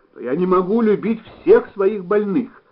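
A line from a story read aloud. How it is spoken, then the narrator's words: Exclaimed. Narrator (Russian): воскликнул Нечитайло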